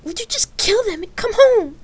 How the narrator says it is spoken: Lark spat angrily

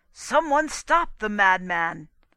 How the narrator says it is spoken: Spradley howled

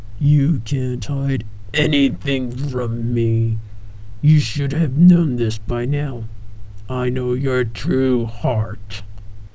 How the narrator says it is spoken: Ares boomed

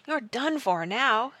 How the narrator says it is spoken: exclaimed Jack

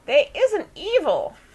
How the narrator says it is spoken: Daisy now squeaked, having come to sufficiently

